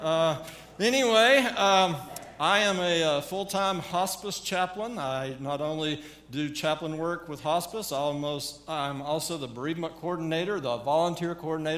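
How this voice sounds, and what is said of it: Southern American accent. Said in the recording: “I have not lost my southern accent after all these years.”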